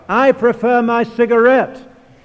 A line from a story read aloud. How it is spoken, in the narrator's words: shouted the heckler